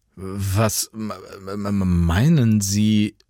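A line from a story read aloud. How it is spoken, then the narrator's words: Confused stammer. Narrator (German): stammelte Jan irritiert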